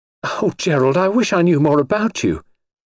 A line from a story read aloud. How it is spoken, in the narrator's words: a wave of panic surged over her, so that she cried out before she could stop herself